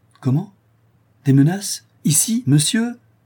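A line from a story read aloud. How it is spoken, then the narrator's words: Indignant exclamation. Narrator (French): s'écria Conrad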